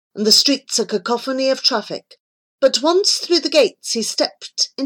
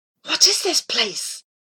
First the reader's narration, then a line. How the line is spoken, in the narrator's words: He whispered